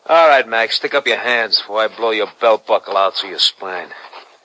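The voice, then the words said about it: Brooklyn accent. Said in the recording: “a Brooklyn accent”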